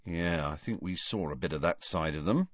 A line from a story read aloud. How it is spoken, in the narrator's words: said Ron in an undertone